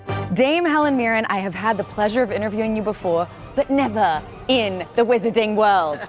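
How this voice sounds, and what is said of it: Put-on British accent. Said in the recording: “can you help me with my British accent? ... That was pretty good, actually. I was quite impressed.”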